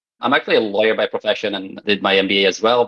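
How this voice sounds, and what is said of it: Polish accent in English. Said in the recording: “my weird accent comes from the fact that I'm Polish”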